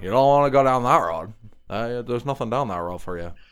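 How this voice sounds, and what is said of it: Terrible Midwest accent impression. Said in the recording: “a terrible Midwest accent done by Herman Munster himself”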